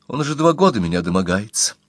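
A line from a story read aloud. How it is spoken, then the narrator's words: Calm. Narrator (Russian): спокойно сказала Клотильда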